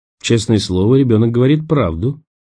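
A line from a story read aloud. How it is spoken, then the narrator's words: Quiet speech. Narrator (Russian): тихо промолвил он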